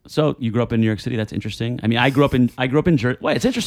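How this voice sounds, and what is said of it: Usual voice. Nothing is said of it.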